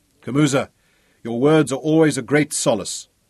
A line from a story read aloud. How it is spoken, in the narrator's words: Ralph told him bitterly